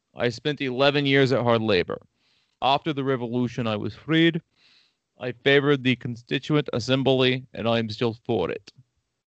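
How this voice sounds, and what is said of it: Put-on silly foreign accent. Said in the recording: “I had to do that in a stupid accent.”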